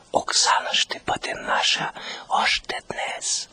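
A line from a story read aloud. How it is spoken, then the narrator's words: Whisper. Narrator (Bulgarian): прошепна той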